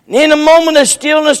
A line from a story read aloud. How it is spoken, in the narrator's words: he screamed